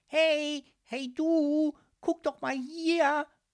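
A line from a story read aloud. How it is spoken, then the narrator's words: Shell shouting loudly. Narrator (German): rief die Muschel so laut es nur ging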